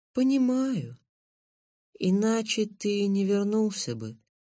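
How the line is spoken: Calm confirmation. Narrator (Russian): спокойно подтвердил торговец

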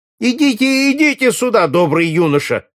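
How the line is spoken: Shouting. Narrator (Russian): закричал тощий студент, увидев Алена

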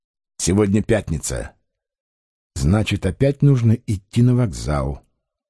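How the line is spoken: Said quietly. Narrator (Russian): негромко сказал

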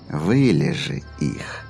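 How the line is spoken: Silky, insinuating. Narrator (Russian): также вкрадчиво продолжил Дипейп

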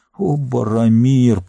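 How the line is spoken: Groaning. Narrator (Russian): простонал он

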